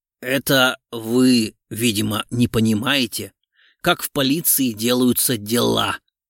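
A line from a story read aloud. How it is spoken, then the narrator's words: Angry growl. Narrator (Russian): гневно прорычал генерал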